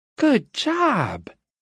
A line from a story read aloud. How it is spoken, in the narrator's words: She cried, as if Luke were a 3-year-old who had just managed to dress himself for the first time